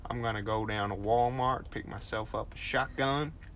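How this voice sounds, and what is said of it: Australian doing Southern American accent. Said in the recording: “you have to go for like a Midwest accent if you're going for an American ... or South ... it's very easy for you to move your Australian accent into a Southern American accent ... See, that doesn't sound like ... Too far off ... It's close.”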